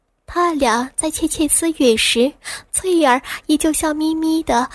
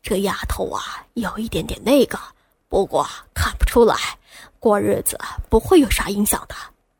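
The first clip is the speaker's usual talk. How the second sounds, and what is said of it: Lowered, hushed voice. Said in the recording (Chinese): “压低了声音说道”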